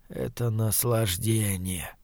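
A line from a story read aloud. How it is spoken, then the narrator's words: Whisper. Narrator (Russian): прошептал он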